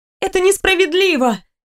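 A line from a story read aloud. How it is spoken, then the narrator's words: Exclaimed. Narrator (Russian): воскликнула я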